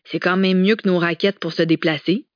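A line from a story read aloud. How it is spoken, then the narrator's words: Exclaimed. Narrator (French): s'exclama Gérola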